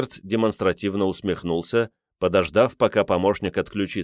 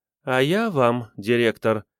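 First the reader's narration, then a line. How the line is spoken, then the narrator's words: Sighing. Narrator (Russian): вздохнула Мойра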